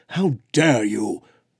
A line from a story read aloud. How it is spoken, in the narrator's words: Brona thundered